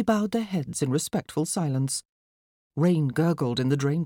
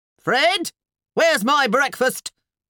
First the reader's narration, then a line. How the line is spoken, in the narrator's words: sounded a nearby bellow